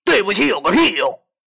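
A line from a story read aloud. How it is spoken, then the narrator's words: Shouting into phone. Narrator (Chinese): 我对着电话喊道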